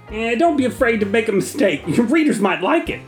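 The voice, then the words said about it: A deliberately bad impression. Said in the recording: “It's a terrible impression.”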